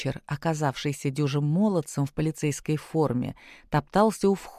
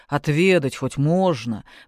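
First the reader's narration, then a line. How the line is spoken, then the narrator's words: Deep pleading voice. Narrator (Russian): пробасил умоляюще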